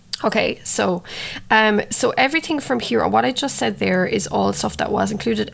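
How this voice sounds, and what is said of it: Croaky voice. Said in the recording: “my voice has gotten croaky from speaking so much”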